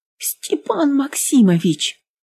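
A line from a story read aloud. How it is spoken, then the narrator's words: Someone nearby babbling. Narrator (Russian): лепетал кто-то рядом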